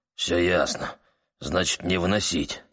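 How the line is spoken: Grumbling. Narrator (Russian): проворчал черный Бада

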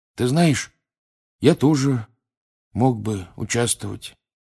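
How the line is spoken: Sleepy mutter. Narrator (Russian): сонно пробормотал Рон в темноте

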